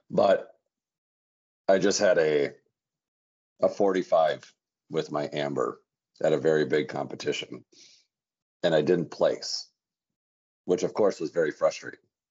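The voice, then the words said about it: Hoarse voice. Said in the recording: “my voice is kind of hoarse because, you know, it's very loud in there.”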